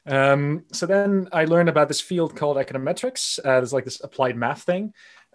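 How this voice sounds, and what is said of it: American-influenced accent. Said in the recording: “I was born in the United States ... I definitely traveled to the United States, and that's where the accent comes from”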